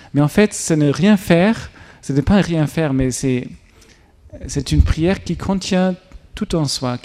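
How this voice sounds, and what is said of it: German accent speaking French. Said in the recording (French): “pardon pour mon accent allemand”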